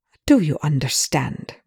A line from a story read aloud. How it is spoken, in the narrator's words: Rush said, his tone like a lathe